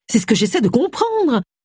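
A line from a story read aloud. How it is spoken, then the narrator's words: Exclaimed. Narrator (French): s'exclama Agatha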